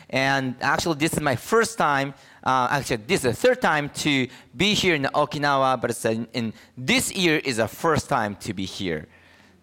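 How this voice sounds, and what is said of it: Japanese-accented English. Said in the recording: “since I'm Japanese, my preaching may have some accent”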